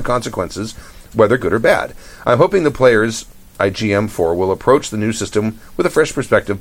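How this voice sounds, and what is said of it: Mixed English-Irish-Australian accent. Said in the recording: “Australians don't like my Australian accent ... My accent is mongrel, to say the least.”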